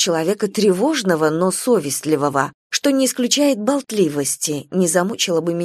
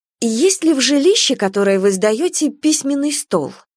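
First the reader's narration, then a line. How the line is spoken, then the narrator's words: Plain. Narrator (Russian): спросила Анна Аркадьевна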